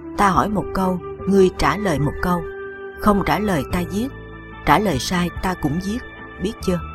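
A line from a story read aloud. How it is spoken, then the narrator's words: Soft hiss, word by word. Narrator (Vietnamese): Như Cố Tuyết Kiệm từng tiếng nói, Tiểu Phi rít khe khẽ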